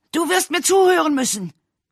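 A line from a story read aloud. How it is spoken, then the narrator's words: Roaring. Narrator (German): brüllte Edgar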